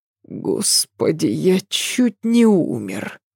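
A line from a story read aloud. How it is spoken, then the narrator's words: Groan. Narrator (Russian): простонал Адам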